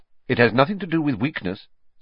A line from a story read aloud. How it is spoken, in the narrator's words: said Professor Lupin, sharply, as though he had read Harry's mind